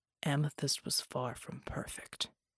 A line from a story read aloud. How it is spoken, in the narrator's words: he said, his voice low and empty